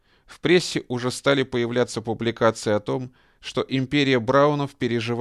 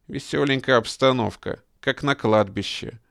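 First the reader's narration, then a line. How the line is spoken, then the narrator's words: Gloomy remark. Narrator (Russian): мрачно заметил 28-летний Вилли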